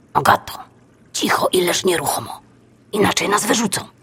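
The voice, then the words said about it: Whispering. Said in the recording (Polish): “Szepnęła Baśka.”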